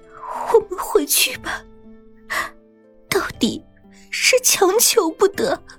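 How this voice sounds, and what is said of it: Quiet, choked sobbing voice. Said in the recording (Chinese): “小声的哽咽着说”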